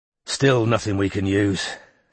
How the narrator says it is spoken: Strike sighed

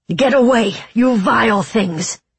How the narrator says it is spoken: Throsen snapped

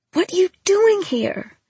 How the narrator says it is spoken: I shouted under my breath

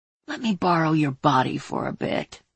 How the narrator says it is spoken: she whispered

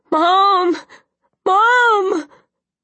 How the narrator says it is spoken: She was crying, still yelling

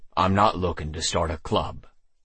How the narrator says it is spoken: I said more gruffly than I'd intended

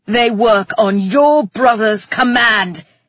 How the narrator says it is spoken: he roared at me

